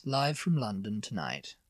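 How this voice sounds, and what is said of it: Posh RP newsreader accent. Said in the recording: “Newsreaders used to sound very RP, very posh and very RP. And they'd sound a bit like that.”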